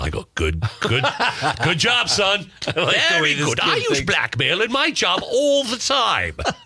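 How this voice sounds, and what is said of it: Put-on English professor accent. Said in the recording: “I don't know why I have an English accent. I always think of professors. ... You do the accents really well”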